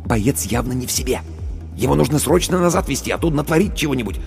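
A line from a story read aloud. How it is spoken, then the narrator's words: Whisper. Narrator (Russian): Командир медотделения шепнул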